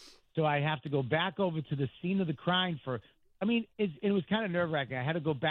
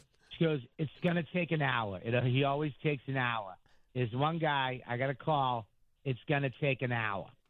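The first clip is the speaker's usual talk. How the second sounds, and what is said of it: Put-on Boston accent. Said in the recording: “Why this woman's from Boston, I don't know. ... But this is the only accent I do.”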